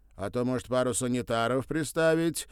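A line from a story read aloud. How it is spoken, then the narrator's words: Deliberately loud musing. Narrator (Russian): В раздумье, будто и не к ней обращаясь, нарочно громко сказал он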